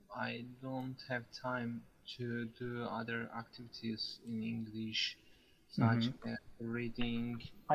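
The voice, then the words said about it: Turkish accent in English. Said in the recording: “You have a very lovely accent. You're Turkish, right?”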